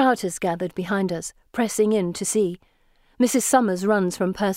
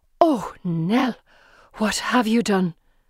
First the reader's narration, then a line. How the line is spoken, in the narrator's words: The nurse gasps